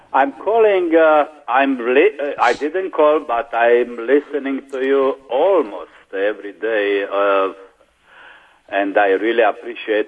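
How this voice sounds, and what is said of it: Romanian accent. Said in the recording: “Romanian accent”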